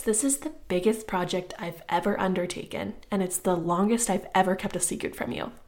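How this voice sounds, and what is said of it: Excited, enthusiastic voice. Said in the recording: “I'm sure you can tell by my voice, I'm just so excited about this.”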